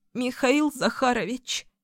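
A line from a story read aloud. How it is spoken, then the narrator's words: Sudden, with slight sob. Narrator (Russian): произнесла она вдруг, едва заметно всхлипнув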